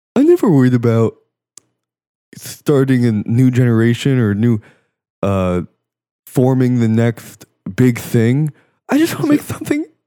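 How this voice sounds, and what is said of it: Imitates another person's voice. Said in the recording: “good impression. ... That's how Calvin talks.”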